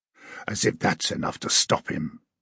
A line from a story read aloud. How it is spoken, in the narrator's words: hissed